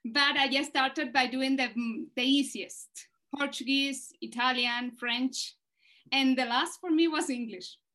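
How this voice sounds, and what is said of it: Non-native English accent. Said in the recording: “I am not the best example because of my accent”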